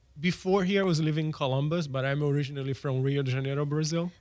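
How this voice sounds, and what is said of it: Brazilian Portuguese accent with a lilt. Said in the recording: “That's the accent. So yes. Brazilian accent. ... got an interesting lilt to it.”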